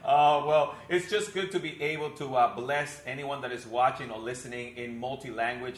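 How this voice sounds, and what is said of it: Mixed-up accent. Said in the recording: “my mixed-up accent”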